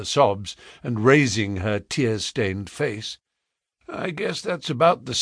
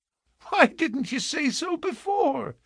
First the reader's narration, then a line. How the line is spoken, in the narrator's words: She said, laughing gleefully